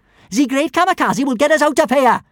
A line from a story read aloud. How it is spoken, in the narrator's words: shouted Kamikaze